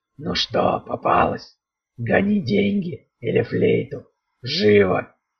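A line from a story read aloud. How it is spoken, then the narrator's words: Hoarse. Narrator (Russian): прохрипел он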